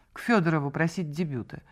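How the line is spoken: Icy woman. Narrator (Russian): ответила она ледяным тоном

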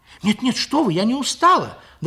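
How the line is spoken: Frightened answer. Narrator (Russian): Даже испуганно, ответила Лиля

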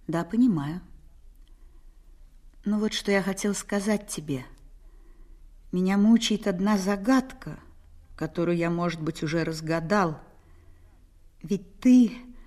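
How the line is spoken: Calm reply. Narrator (Russian): Я ответила спокойно

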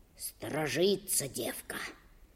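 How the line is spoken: Whisper. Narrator (Russian): прошептал Алексашка

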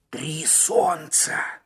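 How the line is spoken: Hoarse mutter. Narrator (Russian): хрипло пробормотал Маккен

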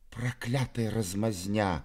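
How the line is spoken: Whispered. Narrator (Russian): прошептал Мизинчиков

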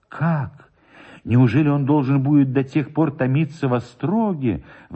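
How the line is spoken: Sorrowful exclamation. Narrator (Russian): воскликнула горестно Мария

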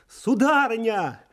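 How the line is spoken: Cried out. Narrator (Russian): Ермошка вскрикнул

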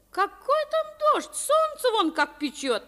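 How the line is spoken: Cheerful reply. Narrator (Russian): весело ответила Авдотья Павловна

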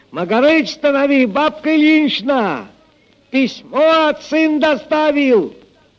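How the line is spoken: Shouting from afar. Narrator (Russian): Прохор, еще издали крикнул

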